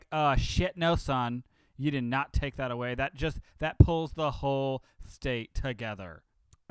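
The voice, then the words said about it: Stereotyped camp gay voice impression. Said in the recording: “that gay impression from like 1970? ... A Roger voice.”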